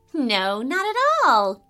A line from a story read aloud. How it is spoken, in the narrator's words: giggled Farah